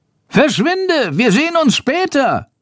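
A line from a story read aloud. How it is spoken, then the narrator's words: Calling out. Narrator (German): ruft Schandor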